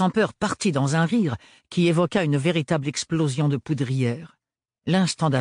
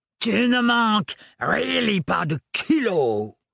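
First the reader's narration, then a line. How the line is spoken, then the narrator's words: Disgusted grumble. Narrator (French): grogna le sans-peur avec une moue écœurée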